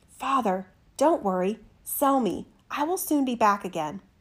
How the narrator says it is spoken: whispered to him

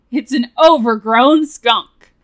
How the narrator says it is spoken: laughed the sheep

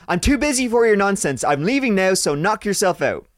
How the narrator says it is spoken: I went to the bottom of the stairs and shouted

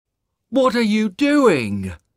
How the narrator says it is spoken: shouted the woodcutter

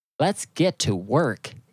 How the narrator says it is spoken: it said

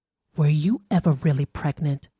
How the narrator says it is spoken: whispered

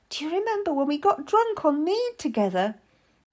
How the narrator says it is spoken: I laughed, but pointed out

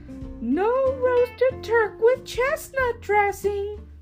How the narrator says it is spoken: cried Runt

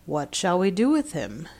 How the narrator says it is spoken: it growled to the others

